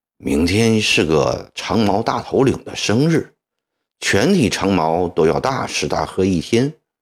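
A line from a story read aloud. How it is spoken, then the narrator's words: Hushed voice. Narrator (Chinese): 龙少爷压低声音说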